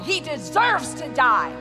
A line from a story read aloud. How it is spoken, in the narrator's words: They cried out in reply